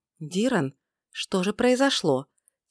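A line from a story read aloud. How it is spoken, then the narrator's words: Quiet question. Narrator (Russian): Тихо поинтересовалась Айлин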